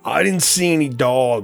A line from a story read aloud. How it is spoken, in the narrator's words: Richard spat with derision